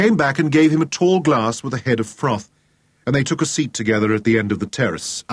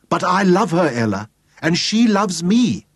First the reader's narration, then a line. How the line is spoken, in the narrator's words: he cried out violently